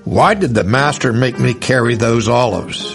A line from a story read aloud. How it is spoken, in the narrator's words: he grumbled to old Barnabas